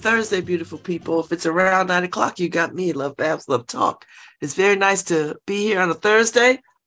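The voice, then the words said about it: Crackly, slightly hoarse voice. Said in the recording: “I'm still under the weather... My voice is still crackly.”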